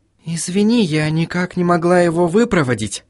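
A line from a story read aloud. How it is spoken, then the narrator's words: Whisper. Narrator (Russian): прошептала Сахариса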